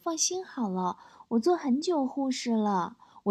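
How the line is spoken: Gentle. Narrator (Chinese): 小护士很温柔说

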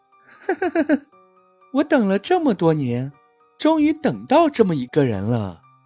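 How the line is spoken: Sinister laughter. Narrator (Chinese): 女人突然狞笑起来 大笑道

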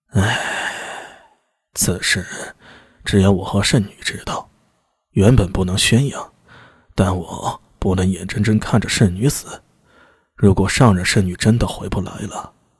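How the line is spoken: Regretful sigh. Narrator (Chinese): 巴彦眼中露出悔意，叹息道

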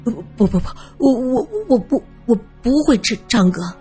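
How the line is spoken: Terrified stammering. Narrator (Chinese): 阿诺吓得牙齿是咯咯作响，他结结巴巴的说

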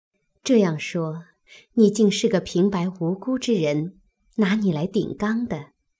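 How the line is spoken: Laughing. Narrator (Chinese): 平儿听了， 笑道

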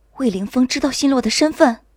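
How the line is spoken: Shocked, trembling voice. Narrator (Chinese): 我猛地一震，颤声道

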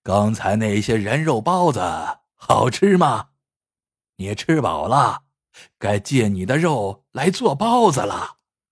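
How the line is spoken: Laughing. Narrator (Chinese): 老板笑道

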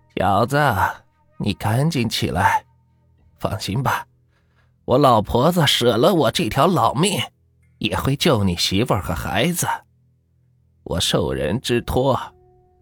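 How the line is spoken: Old woman, sighing. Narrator (Chinese): 老太太…叹了口气，说道

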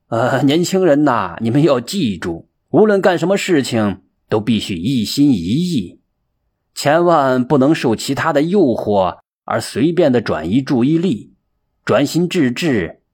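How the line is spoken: Hearty laughter. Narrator (Chinese): 布袋和尚哈哈笑着说

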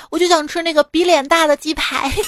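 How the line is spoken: Shout. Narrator (Chinese): 喊了一句

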